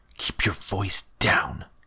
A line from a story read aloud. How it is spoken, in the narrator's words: he hissed